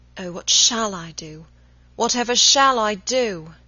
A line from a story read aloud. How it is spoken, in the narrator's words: He moaning